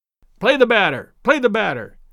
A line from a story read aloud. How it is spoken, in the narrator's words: sharply called Daddy from the bench